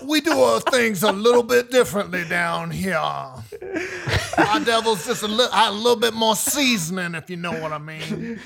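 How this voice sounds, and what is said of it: Put-on Louisiana accent. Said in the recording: “Louisiana ... Accent.”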